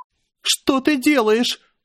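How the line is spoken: Near-hysterical scream. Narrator (Russian): закричала она почти в истерике

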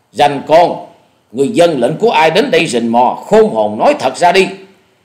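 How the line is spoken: Loud reply. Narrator (Vietnamese): Dạ Điểu Thần Ma lớn tiếng đáp lời

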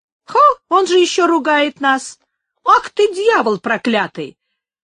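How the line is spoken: Angry exclamation. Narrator (Russian): воскликнули работники

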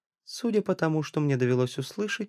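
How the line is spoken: Calm. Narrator (Russian): сказал спокойно

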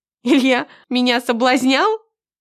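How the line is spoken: Bursting out laughing. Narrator (Russian): Я расхохоталась от услышанного

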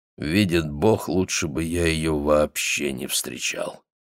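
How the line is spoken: Sighing. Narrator (Russian): Он сказал, вздохнув

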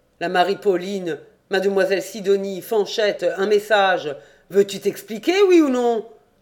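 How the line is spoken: Gloomy growl through teeth. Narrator (French): Il prit un air encore plus lugubre et gronda entre ses dents

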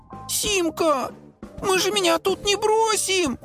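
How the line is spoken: Whimpering. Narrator (Russian): захныкал Нолик

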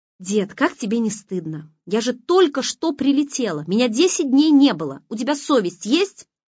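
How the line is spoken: Angry bark. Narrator (Russian): злобно рявкнула Лиза

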